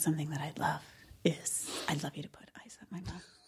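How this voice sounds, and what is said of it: Whispering. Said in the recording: “Why is she whispering?”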